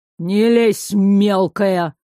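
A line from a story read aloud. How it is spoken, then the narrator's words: Angry, through gritted teeth. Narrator (Russian): процедил туман, не сводя злого взгляда с ветра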